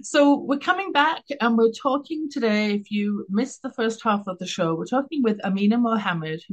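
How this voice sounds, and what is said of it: English accent, smooth pleasant tone. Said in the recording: “my English accent, my dulcet tones”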